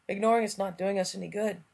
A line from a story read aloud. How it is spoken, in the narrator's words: Sam said, and his voice was worn away almost to nothing now